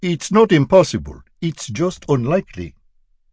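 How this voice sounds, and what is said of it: Imitated Swahili accent. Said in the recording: “He imitated her doctor's Swahili accent.”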